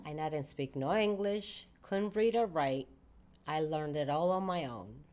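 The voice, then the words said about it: Italian Sicilian accent. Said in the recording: “this gorgeous accent that you have. I know you are not from here ... I grew up in Italy ... born and raised in actually Sicily”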